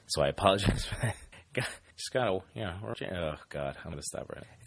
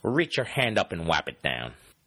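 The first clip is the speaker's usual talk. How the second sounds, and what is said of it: Poor imitation of another person's voice. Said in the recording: “worst John Madden impression”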